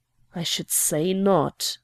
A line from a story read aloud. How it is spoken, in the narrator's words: I murmured